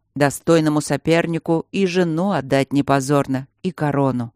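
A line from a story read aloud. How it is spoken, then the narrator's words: Calm reply. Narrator (Russian): спокойно отозвался король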